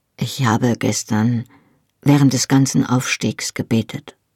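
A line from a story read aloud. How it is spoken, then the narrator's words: Quiet. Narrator (German): sagte er leise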